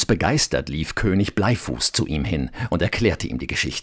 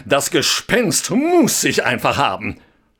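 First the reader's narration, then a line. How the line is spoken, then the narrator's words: Called out. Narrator (German): rief er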